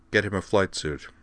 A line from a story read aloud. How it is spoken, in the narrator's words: unsmiling said in a clipped tone